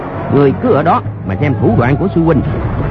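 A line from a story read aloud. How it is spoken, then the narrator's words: Shouting. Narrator (Vietnamese): quát lên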